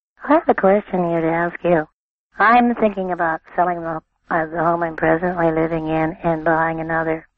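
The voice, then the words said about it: Hoarse, strained voice. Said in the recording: “I'm here with laryngitis and I'm not supposed to be talking.”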